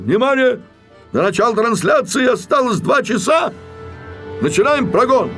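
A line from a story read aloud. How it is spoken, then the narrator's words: Director shouting. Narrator (Russian): режиссер Грамматиков, ответственный за концерт, закричал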